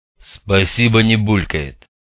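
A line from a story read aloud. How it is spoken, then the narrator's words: Grumbled. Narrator (Russian): проворчал резанный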